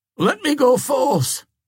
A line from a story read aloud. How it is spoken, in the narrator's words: he cried to the warders at the door of the hall